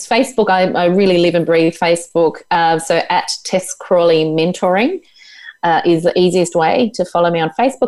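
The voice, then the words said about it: Tasmanian accent. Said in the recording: “i could listen to your accent and your energy my tasmanian devil all day”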